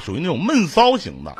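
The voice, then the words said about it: Northeastern Chinese dialect. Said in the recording (Chinese): “用东北话”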